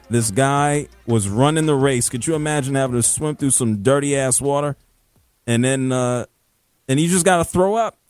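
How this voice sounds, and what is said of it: Northern American accent. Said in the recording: “My accent is too American. It's too Northern.”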